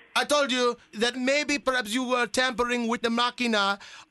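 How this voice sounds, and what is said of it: Put-on foreign accent. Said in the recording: “What happened to your accent?”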